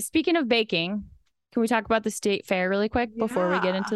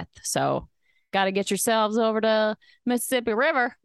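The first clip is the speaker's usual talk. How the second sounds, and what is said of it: Thick put-on Southern accent. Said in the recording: “really thick Southern accent”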